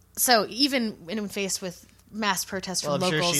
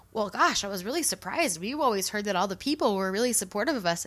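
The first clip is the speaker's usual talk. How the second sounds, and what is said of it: Put-on Minnesota accent. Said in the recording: “she's from Minnesota. ... That's my accent for her.”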